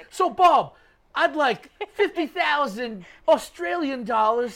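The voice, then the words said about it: Attempted Australian accent. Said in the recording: “Is that your Australian accent? ... I can't do an Australian accent.”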